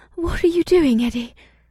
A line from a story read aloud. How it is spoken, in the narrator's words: Ibsith breathed, and her tone was confused and excited at the same time